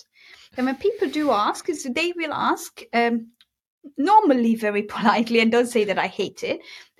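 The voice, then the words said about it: Mixed, non-typical Hungarian accent. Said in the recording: “I do have an accent. I know that. It's not a typical Hungarian accent. It's a mixture of all things. I lived in Birmingham. I wrote in the States. I have my Hungarian ways, and I have my own accent.”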